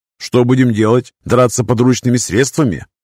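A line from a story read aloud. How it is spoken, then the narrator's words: Mocking snort. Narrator (Russian): Анцила насмешливо фыркнула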